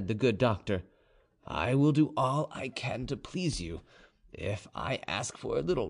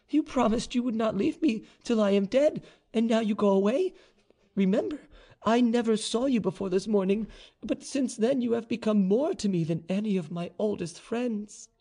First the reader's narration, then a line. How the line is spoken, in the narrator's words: she cried